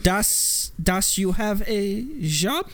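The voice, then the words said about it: Put-on German accent. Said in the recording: “that was a flawless German accent”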